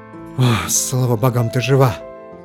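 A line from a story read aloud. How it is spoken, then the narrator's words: Relieved breathy exhale. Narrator (Russian): выдохнул он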